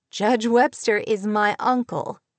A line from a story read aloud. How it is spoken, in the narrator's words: she said, laughing